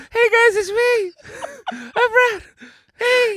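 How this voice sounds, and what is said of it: High-pitched, breathless imitation of another person. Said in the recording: “That didn't even sound at all like him... He's got a higher voice than me... Brad was trapped in a helium factory overnight... why is he out of breath?”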